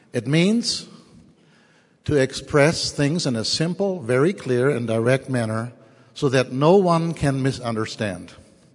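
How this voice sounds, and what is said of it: German accent. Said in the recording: “I am German... my funny accent”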